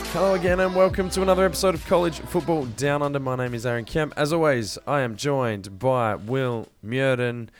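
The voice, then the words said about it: Tired, low-energy voice. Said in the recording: “You sound exhausted.”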